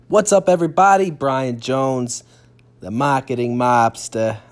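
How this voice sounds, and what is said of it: Put-on New York-Boston accent. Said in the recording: “Kind of try to come up with like a New York accent or something. Kind of cross between New York and Boston.”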